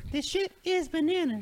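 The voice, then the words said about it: Imitates a pop singer's voice. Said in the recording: “That was actually the closest Gwen Stefani for impersonation I've ever heard.”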